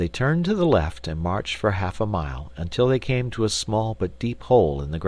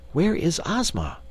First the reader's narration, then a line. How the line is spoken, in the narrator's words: inquired Dorothy anxiously